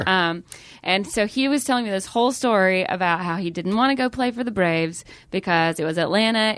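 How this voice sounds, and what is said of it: Southern American accent, Atlanta. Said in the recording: “he heard my accent and I told him I was from Atlanta”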